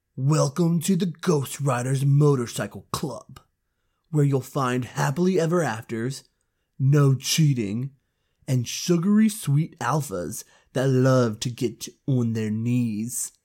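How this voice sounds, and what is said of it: Gritty put-on narrator voice. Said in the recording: “how do I do this voice? ... It's Gritty. So I'll do Gritty.”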